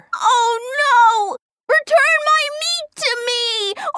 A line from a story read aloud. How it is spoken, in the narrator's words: The Dalmatian shouted to the water